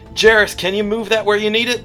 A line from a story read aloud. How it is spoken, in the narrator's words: says, yells out